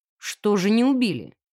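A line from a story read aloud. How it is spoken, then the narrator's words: Inspector's snort. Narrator (Russian): хмыкнул инспектор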